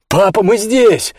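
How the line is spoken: Shout. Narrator (Russian): крикнул Роб

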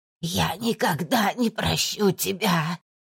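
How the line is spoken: Hoarse rasp. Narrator (Russian): хрипела Валентина

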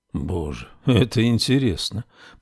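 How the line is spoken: Muttered. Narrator (Russian): пробормотал Рекс

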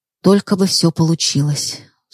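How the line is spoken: Sighing. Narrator (Russian): вздохнув, сказала Рита

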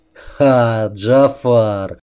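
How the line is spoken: Laughing, gray-haired man. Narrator (Russian): рассмеялся седоволосый

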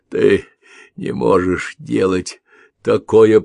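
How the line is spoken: Hoarse rasp. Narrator (Russian): прохрипел он

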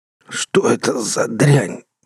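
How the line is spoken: Hoarse rasp. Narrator (Russian): прохрипел

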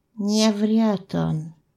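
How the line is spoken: Quiet. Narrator (Russian): тихо молвил Белогость

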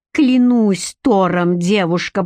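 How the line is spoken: Growling. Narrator (Russian): прорычал он

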